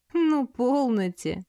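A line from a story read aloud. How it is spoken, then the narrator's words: Laughing woman. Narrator (Russian): рассмеялась красавица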